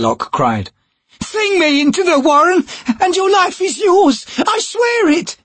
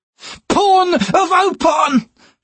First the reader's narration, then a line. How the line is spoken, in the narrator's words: Hairlock snarled